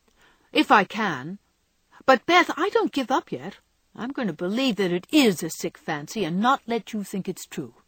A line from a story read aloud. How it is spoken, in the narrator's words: said Joe, trying to speak cheerfully